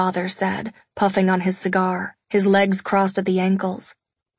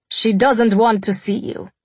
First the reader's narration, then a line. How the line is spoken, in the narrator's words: my father replied curtly